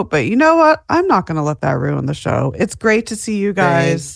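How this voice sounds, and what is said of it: Slightly off, sore-throat voice. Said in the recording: “My voice is a little off because I do have a sore throat”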